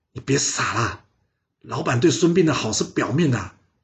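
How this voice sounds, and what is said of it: Quiet, hushed voice. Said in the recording (Chinese): “他小小声的跟陈儿说”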